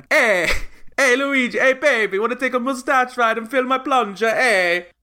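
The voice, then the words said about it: Poor put-on Italian accent. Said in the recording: “Can't do Italian accent. ... we will not give you good accents”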